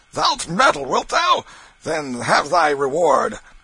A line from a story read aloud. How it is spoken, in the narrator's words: Canty roared out